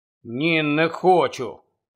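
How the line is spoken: Barely audible mutter. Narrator (Ukrainian): ледь чутно пробурмотів Рон

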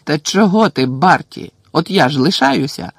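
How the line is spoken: Joyful exclamation. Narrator (Ukrainian): радісно вигукнув Бегмен

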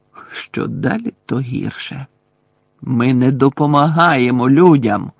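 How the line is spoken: Growling centaur. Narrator (Ukrainian): прогарчав той кентавр

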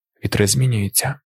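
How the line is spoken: Joker whispering. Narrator (Ukrainian): прошепотів дотепник

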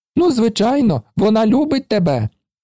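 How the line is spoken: Exclaimed. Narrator (Ukrainian): вигукнув

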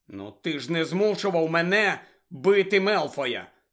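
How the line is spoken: Angry objection. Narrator (Ukrainian): сердито заперечив Гаррі

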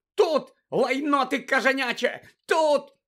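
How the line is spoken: Shrill shrieking. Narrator (Ukrainian): верещала місіс Фіг

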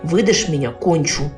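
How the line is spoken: Secret whisper. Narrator (Russian): незаметно шепнуть

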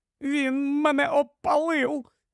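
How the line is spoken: Moaning in pain. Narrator (Ukrainian): застогнала, смокчучи вкриті пухарями пальці

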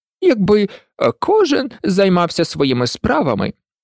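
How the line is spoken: Hoarse grumble. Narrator (Ukrainian): хрипло буркнула герцогиня

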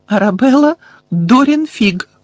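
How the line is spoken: Trembling voice. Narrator (Ukrainian): відповіла тремтячим голосом

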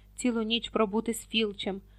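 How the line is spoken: Heavy sigh. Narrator (Ukrainian): тяжко зітхнув Рон

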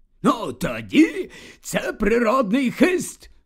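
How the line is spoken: Exclamation. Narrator (Ukrainian): Вигукнув слизоріг

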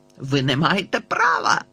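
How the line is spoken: Father barking. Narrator (Ukrainian): гаркнув тато

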